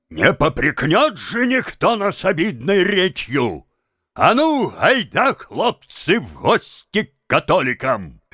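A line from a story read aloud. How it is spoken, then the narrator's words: Shouting. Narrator (Russian): сказал Тарас … крикнул своим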